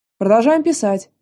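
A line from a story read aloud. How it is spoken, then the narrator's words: Teacher shouting sternly. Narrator (Russian): прикрикнул преподаватель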